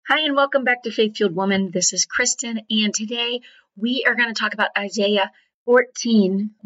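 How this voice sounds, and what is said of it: Slightly hoarse voice. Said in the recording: “I'm slightly hoarse”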